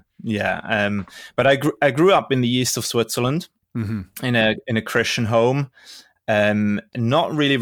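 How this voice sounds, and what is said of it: Non-American, British-sounding accent. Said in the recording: “interesting English accent ... It's a very good accent, but it's not an American accent”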